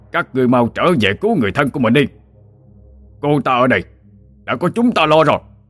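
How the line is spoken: Shout. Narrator (Vietnamese): quát lên

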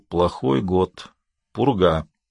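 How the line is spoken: Through clenched teeth. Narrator (Russian): Мастер сквозь зубы ответил

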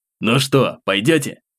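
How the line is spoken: Snorting. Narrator (Russian): хмыкнул

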